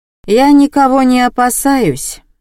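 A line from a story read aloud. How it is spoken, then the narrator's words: Gloomy declaration. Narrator (Russian): мрачно заявила Инесса Матвеевна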